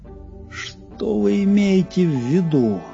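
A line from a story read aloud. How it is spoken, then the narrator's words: Hoarse with agitation. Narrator (Russian): хриплым от волнения голосом спросил Пезброук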